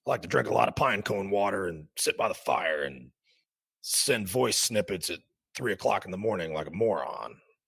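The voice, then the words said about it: Imitates another person's drunken voice. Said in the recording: “That's my impression of drunk Dan.”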